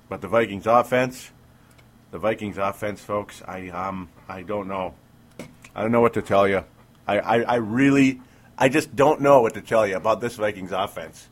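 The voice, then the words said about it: Slightly sick, under-the-weather voice. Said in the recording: “my voice sounds a little teeny bit different because I've been under the weather all week ... not enough for my voice to be kind of at 100%”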